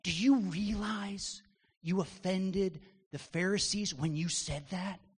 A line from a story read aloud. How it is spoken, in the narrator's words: They whisper